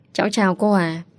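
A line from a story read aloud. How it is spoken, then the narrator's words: Gentle speech. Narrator (Vietnamese): An Trúc nhẹ nhàng cất lời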